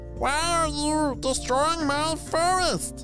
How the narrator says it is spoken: She yelled

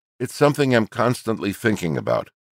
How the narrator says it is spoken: the 35-year-old says

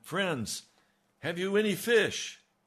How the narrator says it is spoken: he called out to them

